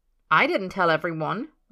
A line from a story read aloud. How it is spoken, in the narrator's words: Merlin says hotly